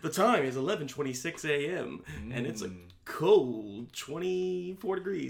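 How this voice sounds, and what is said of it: Mock public-radio announcer voice. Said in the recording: “This is my NPR voice.”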